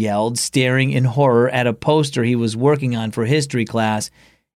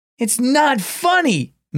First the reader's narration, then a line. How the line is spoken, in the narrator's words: Mitch roared